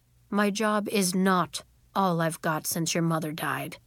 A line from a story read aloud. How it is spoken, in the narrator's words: he said gruffly